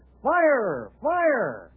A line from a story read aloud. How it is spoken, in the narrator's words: yells